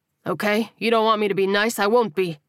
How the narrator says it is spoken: the man snapped

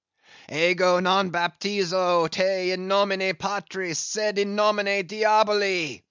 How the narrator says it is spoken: deliriously howled Ahab

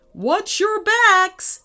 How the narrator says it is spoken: shouted Dad

